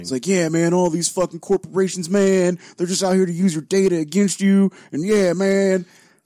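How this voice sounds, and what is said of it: Bad Dennis Hopper impression. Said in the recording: “imagine somebody doing a really shitty Dennis Hopper impression and that's him ... So he's doing Dennis Hopper”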